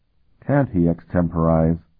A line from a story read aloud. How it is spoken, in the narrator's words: Calton asked quietly